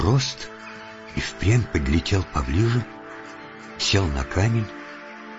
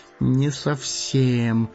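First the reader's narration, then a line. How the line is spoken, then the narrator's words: Clueless hobbit mumbling. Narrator (Russian): промямлил хоббит, который на самом деле ничего не смыслил в птичьих разговорах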